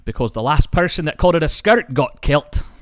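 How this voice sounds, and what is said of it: Scottish accent. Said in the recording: “I was hoping you'd do it in your accent, because it sounds better than the accent ... my Scottish accent is not the greatest ... it do be hitting different in that accent”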